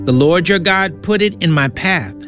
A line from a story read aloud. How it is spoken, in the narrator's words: Jacob replied